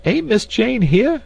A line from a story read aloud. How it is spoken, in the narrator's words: cried Esmeralda